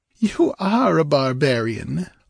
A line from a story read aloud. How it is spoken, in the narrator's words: laughed Thallus